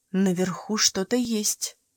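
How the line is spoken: Whisper. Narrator (Russian): прошептала Фейт

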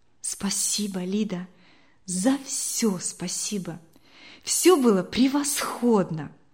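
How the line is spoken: Whisper in the ear. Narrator (Russian): Вероника, прощаясь с Лидией, прошептала ей на ухо

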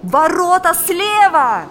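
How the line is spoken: Shouted. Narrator (Russian): закричал Валериан

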